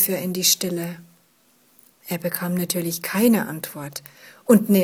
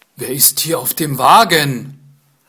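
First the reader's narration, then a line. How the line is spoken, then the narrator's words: Gruff question. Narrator (German): fragte er barsch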